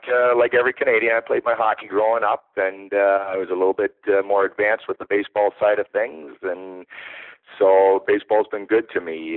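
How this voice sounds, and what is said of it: Slight Canadian accent. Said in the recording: “people can probably tell you got a little bit of an accent. You know, sounds like you might be want to talk about hockey a little more than baseball”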